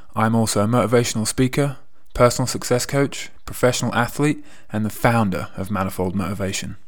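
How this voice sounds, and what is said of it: English accent. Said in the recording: “If you haven't already guessed from my accent, I am from England.”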